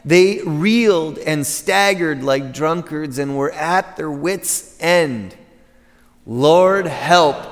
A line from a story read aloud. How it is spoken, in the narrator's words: cried in their trouble